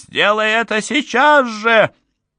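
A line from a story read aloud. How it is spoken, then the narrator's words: Shouted. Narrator (Russian): Озма закричала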